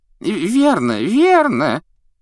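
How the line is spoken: Thin high little voice. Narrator (Russian): тоненьким голоском поддержал коллегу малыш Флитвик

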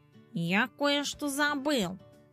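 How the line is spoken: Muttering. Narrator (Russian): пробормотал он

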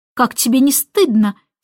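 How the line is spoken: Angry. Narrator (Russian): сердито сказала Мэри Поппинс

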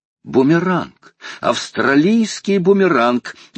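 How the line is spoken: Exclamation. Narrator (Russian): воскликнул Паганель

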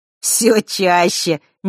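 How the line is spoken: Sudden chuckle. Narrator (Russian): неожиданно хохотнул Ник

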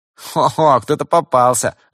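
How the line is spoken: Teenager's loud laughter. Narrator (Russian): расхохотался подросток

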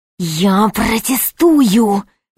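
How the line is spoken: Hissing. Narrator (Russian): зашипел епископ

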